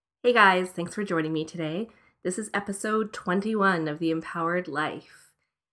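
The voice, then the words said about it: Grainy, gravelly sick voice. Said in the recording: “I've been really, really sick. You can probably hear it in my voice... My voice is going to sound a little bit grainy and gravelly today.”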